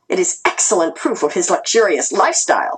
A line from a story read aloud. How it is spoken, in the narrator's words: she said excitedly